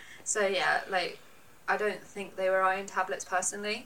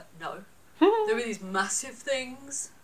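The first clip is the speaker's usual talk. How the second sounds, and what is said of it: Imitated older man, Welsh accent. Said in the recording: “Good impression of your dad, by the way. ... got the real Welsh accent. ... that was uncanny.”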